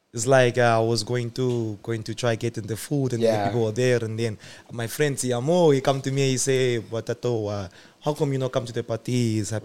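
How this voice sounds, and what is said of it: Dramatic put-on French accent. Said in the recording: “the one I can do is a French one ... be a bit dramatic”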